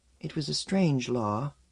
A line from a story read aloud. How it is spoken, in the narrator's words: murmured